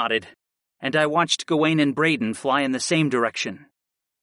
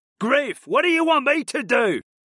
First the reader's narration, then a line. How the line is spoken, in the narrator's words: Brayden shouted over at me